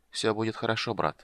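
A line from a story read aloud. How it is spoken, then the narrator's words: Calm. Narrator (Russian): спокойно сказал он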